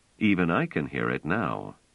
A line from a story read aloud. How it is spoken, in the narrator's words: Trevise said dryly